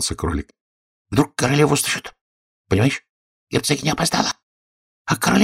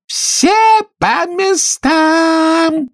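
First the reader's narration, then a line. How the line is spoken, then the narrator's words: Queen shouting, thunderous voice. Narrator (Russian): закричала королева громовым голосом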